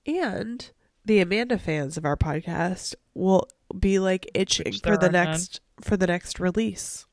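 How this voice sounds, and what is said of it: Voice mostly gone, hoarse. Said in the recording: “when my voice is back”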